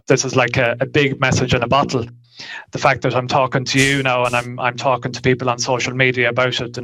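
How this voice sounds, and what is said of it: Irish accent. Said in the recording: “He lives in Ireland ... Another accent, too.”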